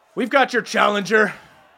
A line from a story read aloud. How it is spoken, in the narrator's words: Skullis shouts out